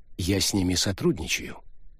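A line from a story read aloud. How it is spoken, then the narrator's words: Calm reply. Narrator (Russian): спокойно ответил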